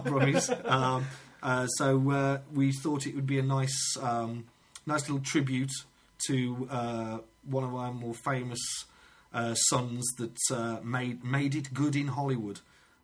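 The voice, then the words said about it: Black Country English accent. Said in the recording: “We're both Black Country lads, which if you know the accent, you can probably tell... We're not Brummies.”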